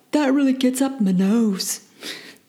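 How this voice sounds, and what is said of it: Poor attempt at Australian accent. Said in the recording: “That was my worst attempt at an Australian accent”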